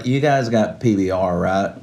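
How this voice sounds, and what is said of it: Put-on Southern US accent. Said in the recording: “Why does he have a southern accent?”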